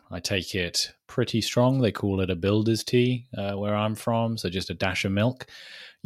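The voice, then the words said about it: British accent. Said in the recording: “if the accent doesn't give it away, I am British”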